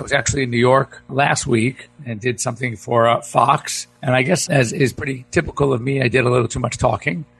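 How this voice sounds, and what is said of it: Hoarse, low, strained voice. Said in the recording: “I seem to have lost my voice. ... I'm going to have to keep the voice toned down low a little bit.”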